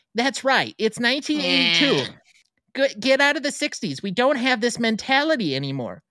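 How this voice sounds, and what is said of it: Exaggerated put-on accent. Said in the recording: “If I'm going to do full accent.”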